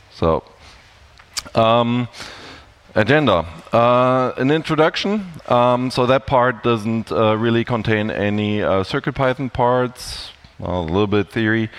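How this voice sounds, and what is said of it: German accent with American influence. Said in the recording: “I'm from Germany, and I've spent some time in the US, if you can tell from the accent.”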